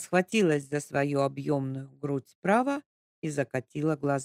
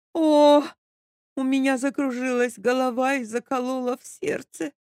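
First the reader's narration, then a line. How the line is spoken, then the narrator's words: Theatrical moaning. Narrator (Russian): простонала Капитолина Андреевна, очень надеясь на трюк, который никогда ее не подводил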